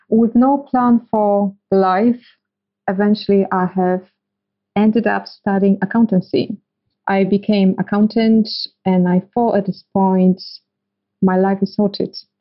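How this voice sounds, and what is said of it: Eastern European accent. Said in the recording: “As you can hear from my accent, I'm coming from eastern part of Europe”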